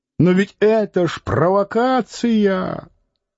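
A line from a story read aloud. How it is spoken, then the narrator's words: Man shouting after someone. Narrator (Russian): кто-то чернобородый крикнул вслед ему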